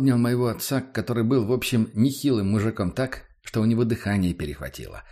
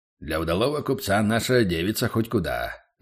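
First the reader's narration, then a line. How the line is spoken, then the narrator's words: Deep bass voice. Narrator (Russian): пробасил Борис Васильевич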